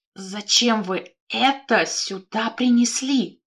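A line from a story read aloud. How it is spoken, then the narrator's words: Hoarse wheeze. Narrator (Russian): просипела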